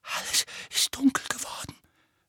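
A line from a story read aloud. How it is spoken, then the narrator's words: Hoarse, shuddering. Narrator (German): sagte Dudley heiser und erschauderte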